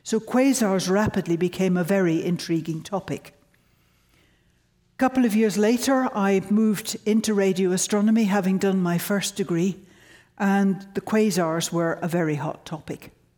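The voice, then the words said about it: Mixed Northern Irish-British accent. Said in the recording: “my funny accent. ... I started life in Northern Ireland. I went and had a lot of my secondary education in York. And I went and did my bachelor's degree in Scotland”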